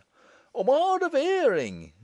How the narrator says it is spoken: he roars

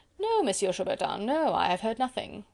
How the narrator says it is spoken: rejoined Sir Percy blandly

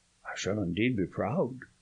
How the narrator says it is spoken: he murmured

